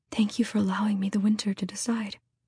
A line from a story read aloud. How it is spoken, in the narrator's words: whispered